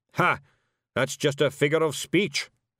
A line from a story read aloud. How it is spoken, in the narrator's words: snapped Zack-Zack